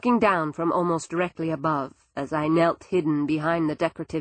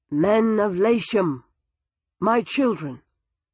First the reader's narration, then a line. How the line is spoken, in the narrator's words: said in his strong voice